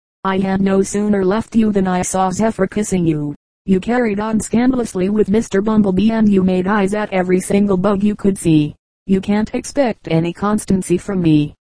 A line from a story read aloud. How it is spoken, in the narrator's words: laughed the butterfly